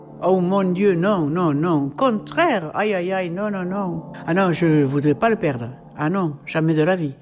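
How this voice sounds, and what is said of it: Regional French accent. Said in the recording (French): “mon accent, c'est mon accent, c'est mon identité”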